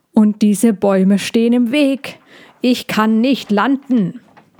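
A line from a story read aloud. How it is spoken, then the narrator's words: Thundering old dragoness. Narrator (German): donnerte die alte Drechin weiter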